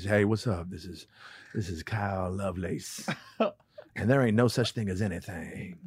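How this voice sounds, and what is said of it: Smooth 90s R&B radio DJ voice. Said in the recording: “you sound like an R&B DJ from the 90s”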